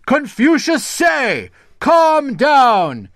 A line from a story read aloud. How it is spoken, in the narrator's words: shouted the servant to the rest of the household